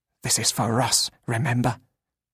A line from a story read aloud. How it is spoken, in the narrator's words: Sim whispered